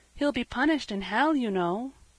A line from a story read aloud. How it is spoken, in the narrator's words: said Peter timidly